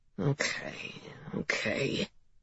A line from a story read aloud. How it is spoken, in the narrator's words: Cap muttered, like he was talking to himself